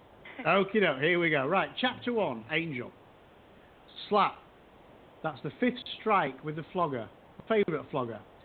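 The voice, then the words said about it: Yorkshire English accent. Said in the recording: “I apologize to Damien for the accent. ... For the Yorkshire pronunciation.”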